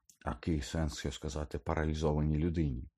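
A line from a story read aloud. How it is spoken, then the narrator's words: Muttered. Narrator (Ukrainian): пробурмотіла вона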